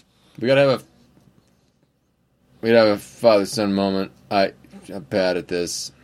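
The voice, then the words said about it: Dad voice. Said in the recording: “dad voice”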